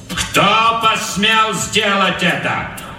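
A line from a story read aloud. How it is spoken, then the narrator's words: Loud question. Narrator (Russian): громко спросил Капрал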